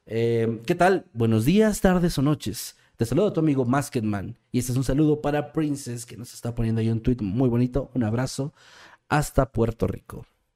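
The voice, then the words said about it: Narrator voice. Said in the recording (Spanish): “¿me podría hacer un saludo con voz de narrador?”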